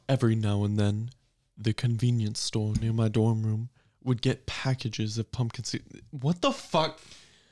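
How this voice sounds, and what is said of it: Put-on British accent. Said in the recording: “Can I do it in a British accent?”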